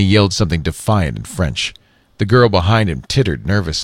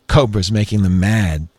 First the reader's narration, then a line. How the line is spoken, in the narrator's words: she said, giggling again